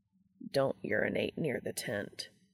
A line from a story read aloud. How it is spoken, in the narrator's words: Castiel mutters